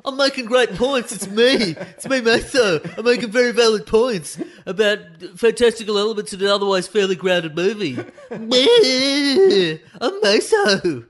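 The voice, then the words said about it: Imitates another person's voice. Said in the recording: “good impression of me. That's a fantastic impression of you doing an impression of me”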